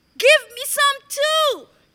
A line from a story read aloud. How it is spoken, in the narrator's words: begged the turtle